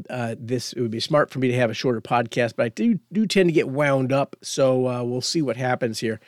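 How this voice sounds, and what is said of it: Voice of someone with a cold. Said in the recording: “I've got a bit of a cold.”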